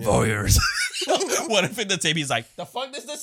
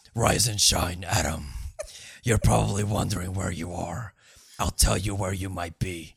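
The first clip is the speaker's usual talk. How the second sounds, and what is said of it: Imitates a film villain's taped voice. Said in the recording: “I can do the voice.”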